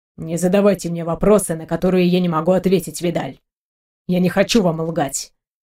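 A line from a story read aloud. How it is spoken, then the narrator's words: Low muffled voice. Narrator (Russian): глухо проговорил северянин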